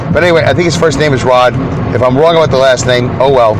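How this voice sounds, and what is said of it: Brooklyn accent. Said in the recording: “He likes my Brooklyn accent”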